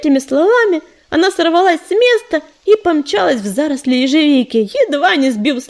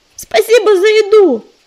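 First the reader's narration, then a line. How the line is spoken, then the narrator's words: Called after her. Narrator (Russian): крикнула ей вслед Листвечка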